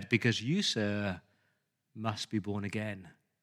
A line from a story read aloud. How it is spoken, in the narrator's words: Whitefield looked at this man very solemnly and said